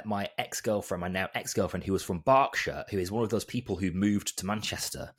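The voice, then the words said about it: Softened Northern English accent. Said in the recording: “had a very strong Bolton accent ... my accent's really softened ... I'm definitely Northern, but I think I'm hard to place. Sometimes I have a bit of a Yorkshire twang”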